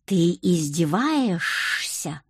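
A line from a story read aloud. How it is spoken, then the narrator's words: Hissing. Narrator (Russian): прошипел дорогой муж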